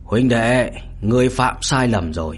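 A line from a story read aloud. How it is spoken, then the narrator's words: Hoarse male voice. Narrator (Vietnamese): một giọng nam khàn khàn vang lên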